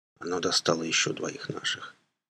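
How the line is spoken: Barely audible. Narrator (Russian): добавил он чуть слышно

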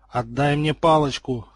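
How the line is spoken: Through clenched teeth. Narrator (Russian): сквозь зубы процедил староста

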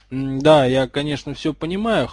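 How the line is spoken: Skeptical snort. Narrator (Russian): хмыкнул в ответ Гарри

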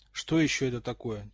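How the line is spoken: Quiet question. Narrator (Russian): тихо спросил Рон

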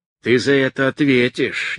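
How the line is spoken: Spiteful. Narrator (Russian): не менее злобно произнес Высокий

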